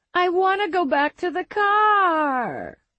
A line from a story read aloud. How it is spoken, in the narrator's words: one of the girls whining